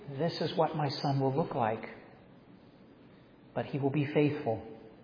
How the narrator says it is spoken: whispering and saying

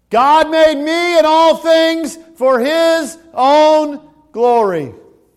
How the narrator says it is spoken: those 19 little second graders yelled

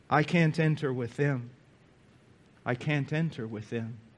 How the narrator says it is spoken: Again sighed and said

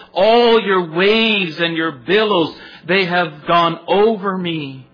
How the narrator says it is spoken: he says

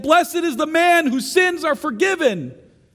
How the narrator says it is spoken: shout and say again

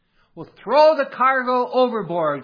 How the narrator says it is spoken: came a shout

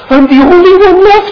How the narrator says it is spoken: he cries out with grief

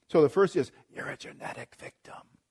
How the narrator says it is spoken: the enemy hisses

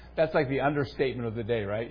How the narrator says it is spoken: They sighed because of these things

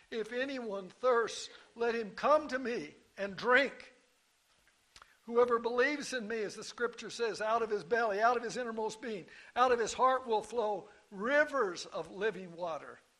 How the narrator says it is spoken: This same Jesus cried

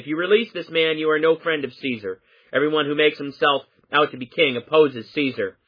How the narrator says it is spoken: the Jews cried out, saying

